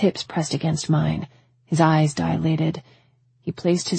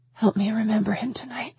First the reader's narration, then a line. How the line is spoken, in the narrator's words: I whispered, a bit shy